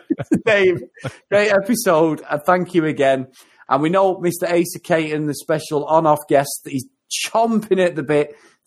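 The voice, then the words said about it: Mancunian accent. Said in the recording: “my silky Mancunian accent”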